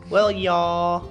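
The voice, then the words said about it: Put-on country accent. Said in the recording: “We'll use our country accent. ... I got my country accent on.”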